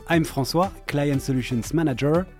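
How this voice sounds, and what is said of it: French accent. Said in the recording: “with a bit of French accent.”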